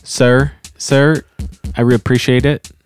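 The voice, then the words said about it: Poor attempt at Nashville accent. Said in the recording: “your best attempt at a Nashville accent ... No, that was terrible.”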